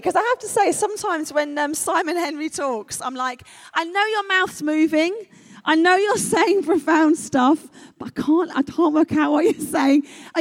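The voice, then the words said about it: London English accent. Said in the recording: “Are you okay with my accent, by the way? ... Are you tracking my accent? ... I'm a Londoner”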